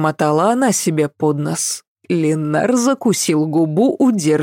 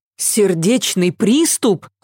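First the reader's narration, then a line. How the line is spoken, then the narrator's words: Exclamation. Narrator (Russian): воскликнула Ася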